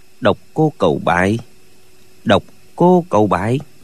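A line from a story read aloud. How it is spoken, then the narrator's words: Muttering. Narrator (Vietnamese): Lệnh Hồ Xung lẩm bẩm nói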